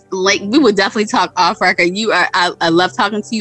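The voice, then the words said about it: Baltimore accent. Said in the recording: “Are you from Baltimore? ... I heard the accent.”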